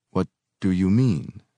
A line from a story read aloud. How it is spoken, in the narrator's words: I asked, my voice lazy, distant